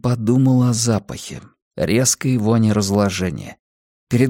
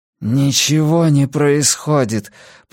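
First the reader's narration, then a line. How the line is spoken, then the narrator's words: Through gritted teeth. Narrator (Russian): процедил он сквозь зубы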